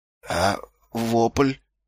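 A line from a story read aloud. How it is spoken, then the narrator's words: Weak question. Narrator (Russian): слабым голосом спросил Ваймс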